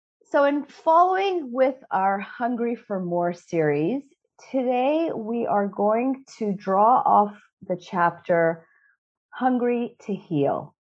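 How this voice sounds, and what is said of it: Slightly sick-sounding voice. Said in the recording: “I'm feeling a little bit under the weather today ... my voice might not be its usual self”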